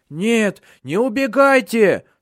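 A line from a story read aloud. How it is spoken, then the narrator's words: Whining fat man. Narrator (Russian): скулил толстый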